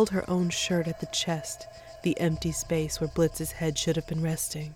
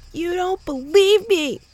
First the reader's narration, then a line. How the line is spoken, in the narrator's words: Mo shouted